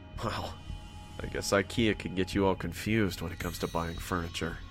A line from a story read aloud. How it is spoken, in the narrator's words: I murmured to myself